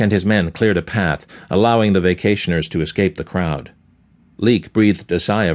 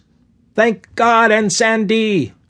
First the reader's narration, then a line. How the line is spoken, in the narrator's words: yelled